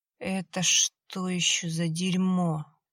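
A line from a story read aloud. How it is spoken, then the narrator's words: Hoarse wheeze. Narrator (Russian): просипел Борис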